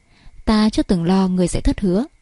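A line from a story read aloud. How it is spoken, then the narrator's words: Confident smiling. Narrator (Vietnamese): Thượng Quan Ngưng Nguyệt mỉm cười vô cùng tự tin nói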